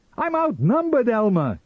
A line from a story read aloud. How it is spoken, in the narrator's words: he cried